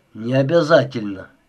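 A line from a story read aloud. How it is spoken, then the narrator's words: Grumbling. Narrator (Russian): проворчал Маград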